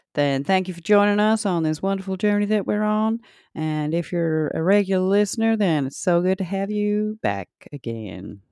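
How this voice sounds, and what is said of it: Put-on Southern accent. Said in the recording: “I don't know why I was doing a southern accent. ... I liked it though. I I just you do accents so well”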